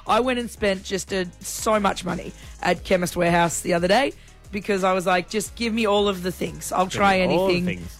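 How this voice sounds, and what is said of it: Deep, husky voice from illness. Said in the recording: “you sound a bit like a bloke ... I'm trying so hard to get my voice back”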